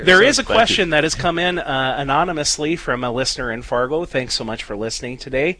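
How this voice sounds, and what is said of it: Southern drawl, rich radio voice. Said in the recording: “that Southern drawl and that awesome radio voice”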